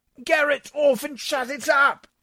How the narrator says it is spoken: I shouted

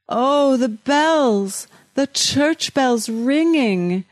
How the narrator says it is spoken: I groan

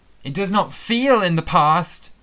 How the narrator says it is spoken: Sebastian sobbed

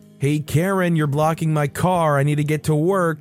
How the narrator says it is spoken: yell at the door

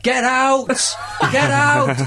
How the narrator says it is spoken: everyone shouts

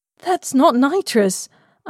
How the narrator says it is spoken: gasped

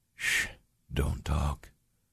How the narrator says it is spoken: William whispered

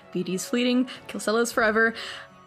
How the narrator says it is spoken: he mutters to himself

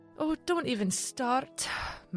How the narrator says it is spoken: Mary sighed

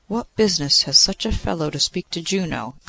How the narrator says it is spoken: exclaimed Jove

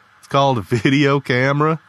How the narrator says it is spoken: Lee chuckled

